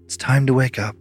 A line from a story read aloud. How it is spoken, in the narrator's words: She smiled sadly, and then she said